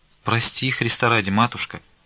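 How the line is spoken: Timid. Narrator (Russian): робко молвила Аркадия

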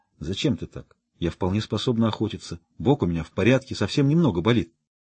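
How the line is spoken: Whispered. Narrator (Russian): прошептала

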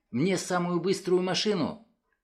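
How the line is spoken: Shouting. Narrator (Russian): крикнул

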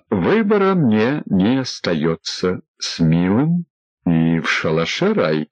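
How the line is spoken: Hesitant. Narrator (Russian): неуверенно сказал Егор Королев

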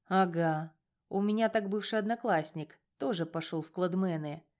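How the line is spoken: Calm. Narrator (Russian): спокойно продолжал Рома

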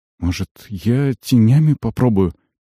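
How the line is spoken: Hesitant suggestion. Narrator (Russian): неуверенно предложил Альмар

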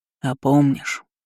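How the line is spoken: Hollow, muffled, a troll. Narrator (Russian): глухо сказал тролль

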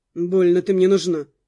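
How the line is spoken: Said through teeth. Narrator (Russian): процедил в ответ

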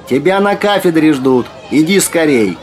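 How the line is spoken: Shout. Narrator (Russian): крикнула

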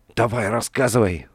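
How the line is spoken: Angry whisper. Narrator (Russian): зло прошептал он

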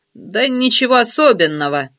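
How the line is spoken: Short laugh. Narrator (Russian): коротко хохотнул Панченко

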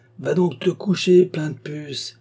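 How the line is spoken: Tremendous shouting voice. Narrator (French): criait-il d'une voix formidable

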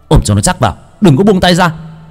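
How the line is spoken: Shouting. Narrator (Vietnamese): Bác cổ hét lên

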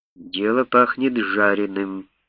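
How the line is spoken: Muttered in English. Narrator (Russian): пробормотал себе под нос капитан Трейс по-английски

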